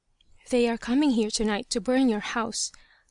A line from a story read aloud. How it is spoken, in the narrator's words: the same voice whispered